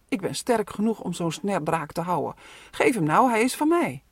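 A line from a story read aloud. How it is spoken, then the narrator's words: Called out. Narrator (Dutch): Robin ging rechtop staan, stak zijn borst naar voren en riep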